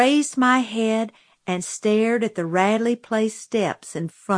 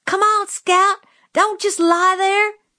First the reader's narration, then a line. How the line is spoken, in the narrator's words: Jim was screaming